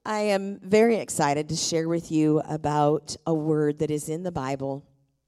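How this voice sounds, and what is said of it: Voice deeper than usual. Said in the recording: “my voice is a little deeper ... some people like a deep voice, so this morning get a deep voice”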